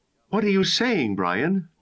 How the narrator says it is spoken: Nina asked shakily

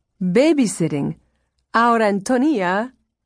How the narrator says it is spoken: She laughed with crazy relief

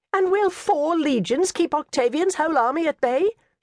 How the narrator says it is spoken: she cried

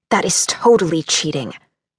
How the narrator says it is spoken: Struggling to maintain my resolve, I growled

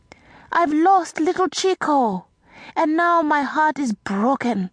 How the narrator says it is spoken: she cried

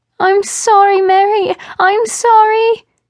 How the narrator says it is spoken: her muffled cries repeated

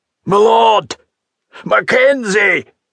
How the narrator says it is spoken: shouted

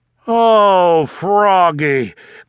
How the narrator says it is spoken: groaned Dad

